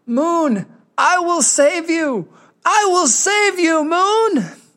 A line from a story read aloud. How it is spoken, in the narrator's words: Hoja shouting